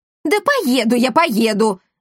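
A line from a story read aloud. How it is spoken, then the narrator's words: Yelling when pinched hard. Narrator (Russian): завопил господин Монпансье, когда она с силой ущипнула его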